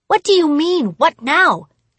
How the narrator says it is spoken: snapped

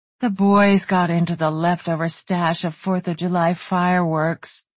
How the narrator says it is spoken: Brooke muttered

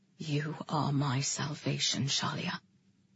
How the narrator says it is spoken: he whispered to me

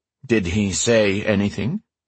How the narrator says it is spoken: he asked evenly

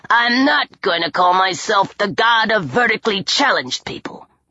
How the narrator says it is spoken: Bess grumbled

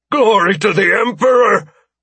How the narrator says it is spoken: one of the captains shouted

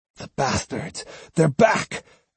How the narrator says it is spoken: exclaimed Matahachi

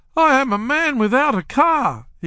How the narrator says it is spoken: he cried

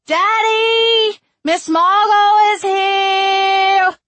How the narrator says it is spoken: June screeched

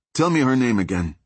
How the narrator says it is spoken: Ding said

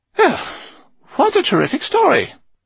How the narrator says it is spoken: exclaimed Eleanor

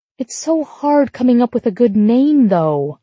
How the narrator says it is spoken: I groan

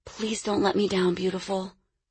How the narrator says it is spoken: she whispered

